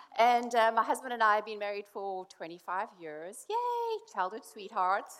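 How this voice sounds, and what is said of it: South African accent with British twang. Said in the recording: “as you can tell, I'm not from around here. I'm southern, but way south, South Africa southern... my drawl isn't quite there yet... that's a bit of a British twang you hear there”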